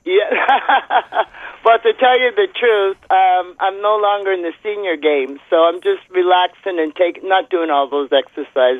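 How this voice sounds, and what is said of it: Slightly congested voice from cold. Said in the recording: “You don't recognize my voice because I have a little bit of a cold.”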